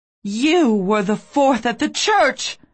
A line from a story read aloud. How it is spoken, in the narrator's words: I cried